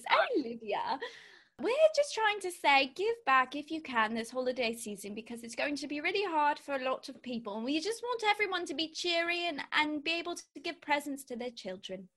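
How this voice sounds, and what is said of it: Put-on British accent. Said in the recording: “we're going to do it in a British accent ... That is too realistic.”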